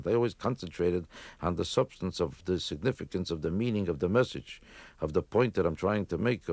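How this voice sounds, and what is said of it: Yiddish accent. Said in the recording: “Do you think you put on a stronger Yiddish accent for your act than you do when you're talking?”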